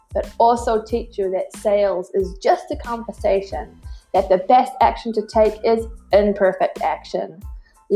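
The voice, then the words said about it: Put-on American accent. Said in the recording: “This is me, by the way, just with an American accent.”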